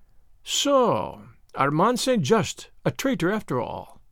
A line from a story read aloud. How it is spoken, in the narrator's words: he murmured